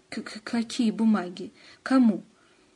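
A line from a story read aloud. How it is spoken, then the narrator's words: Stammering. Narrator (Russian): Антон вдруг стал заикаться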